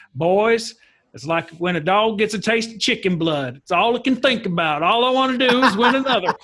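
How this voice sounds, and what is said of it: Thick country accent. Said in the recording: “He's a big, thick country accent.”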